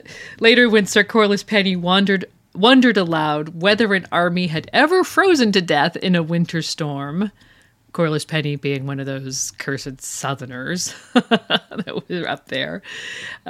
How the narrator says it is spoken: the wolves laughed

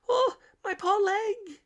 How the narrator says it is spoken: cried

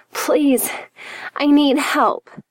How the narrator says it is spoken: she groaned

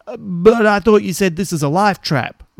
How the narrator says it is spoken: Robert says, raising his voice above the wind

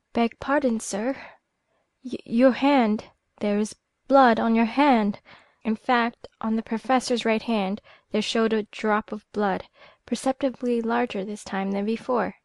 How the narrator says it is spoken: Very pale, she stammered out

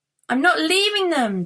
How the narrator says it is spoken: Dax sobbed

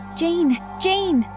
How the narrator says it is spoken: said frantically

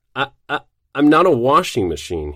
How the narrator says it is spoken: he spluttered

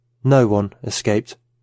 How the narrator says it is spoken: she said

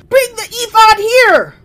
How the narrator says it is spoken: Saul shouted to Ahijah

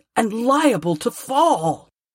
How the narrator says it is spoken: Scrooge cried

